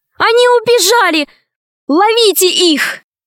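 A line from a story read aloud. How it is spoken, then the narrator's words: Sudden shout, mermaid. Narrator (Russian): Вдруг русалка закричала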